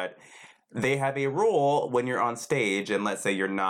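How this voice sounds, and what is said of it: Usual voice. Nothing is said of it.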